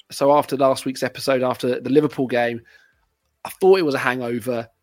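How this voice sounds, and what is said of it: Unwell, strained voice. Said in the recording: “You can probably tell by my voice, I'm still not feeling 100% ... apologies for my voice”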